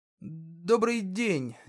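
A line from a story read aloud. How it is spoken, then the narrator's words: Uncertain greeting. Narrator (Russian): неуверенно поприветствовал он эльфа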